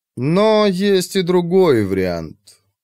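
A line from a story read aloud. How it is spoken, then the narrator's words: Doubtful drawl. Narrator (Russian): протянула жрица с сомнением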